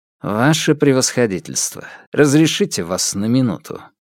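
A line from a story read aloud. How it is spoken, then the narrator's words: Dry inquiry. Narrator (Russian): Алексей сухо осведомился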